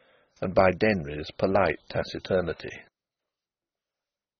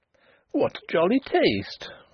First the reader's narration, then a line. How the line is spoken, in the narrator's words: she exclaimed